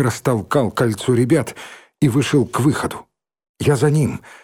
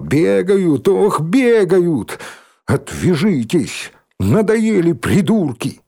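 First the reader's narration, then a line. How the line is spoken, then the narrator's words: Sudden shout, strange voice. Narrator (Russian): вдруг каким-то чужим голосом выкрикнул Димка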